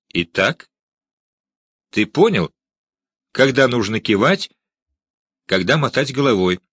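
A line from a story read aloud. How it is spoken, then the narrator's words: Stern question. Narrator (Russian): строго спросил я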